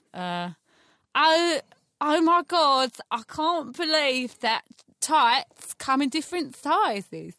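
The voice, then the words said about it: Uncanny Gemma Collins impression. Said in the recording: “your favorite celebrity impression ... It's Gemma Collins ... That is uncanny ... That's actually amazing.”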